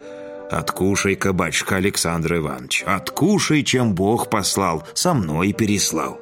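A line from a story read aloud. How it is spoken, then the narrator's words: Sweet deep bass. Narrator (Russian): сладко пробасила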